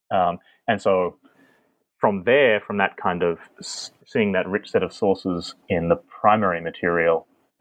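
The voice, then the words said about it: Australian accent. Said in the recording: “judging by your accent, you don't appear to be a native-born U.S. citizen ... No, I'm an Australian.”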